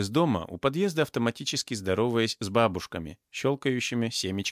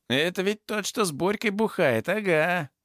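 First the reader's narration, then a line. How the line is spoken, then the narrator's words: Voice from behind. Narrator (Russian): услышал я за спиной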